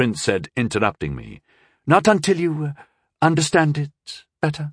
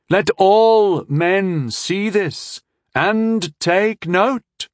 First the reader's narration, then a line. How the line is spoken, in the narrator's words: he said, his voice getting slightly louder